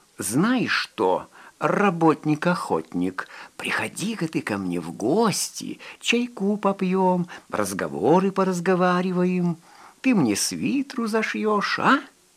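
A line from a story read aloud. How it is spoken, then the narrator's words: Playful, silly laugh. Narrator (Russian): дурашливо засмеявшись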